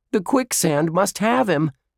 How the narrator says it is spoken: Josh yelled

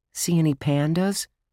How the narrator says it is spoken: Josh whispered

